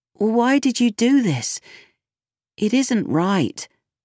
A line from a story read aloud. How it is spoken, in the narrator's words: said Merlin sadly